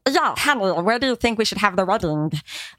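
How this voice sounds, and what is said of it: Posh Swedish accent imitation. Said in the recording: “the Swedish accent ... there's like this sound that they make that is very disturbing. Like when they say hi or hey, they say hell ... it's like a posh way of speaking”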